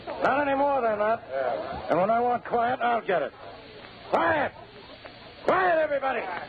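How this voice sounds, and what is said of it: Loud, shouting voice. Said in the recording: “lower your voice”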